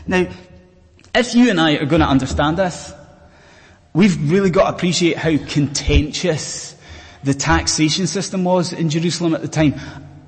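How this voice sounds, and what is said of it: Scottish accent. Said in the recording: “I'm a Scotsman, as you may have gathered from the accent.”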